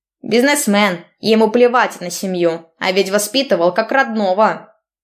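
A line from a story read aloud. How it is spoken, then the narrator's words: Grumbling old man. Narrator (Russian): Ворчал дедушка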